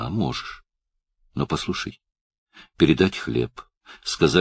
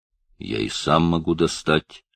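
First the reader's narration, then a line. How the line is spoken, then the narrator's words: Flat colorless reply. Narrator (Russian): ответил Каф бесцветным голосом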